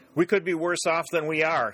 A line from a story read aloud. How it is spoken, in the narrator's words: he shouted to Dick